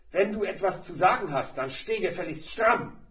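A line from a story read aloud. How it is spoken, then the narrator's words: Explosive angry snapping. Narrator (German): Der Lehrer explodierte, schnauzte Max an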